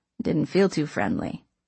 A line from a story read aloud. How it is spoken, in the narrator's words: Gus mumbled just loud enough for me to hear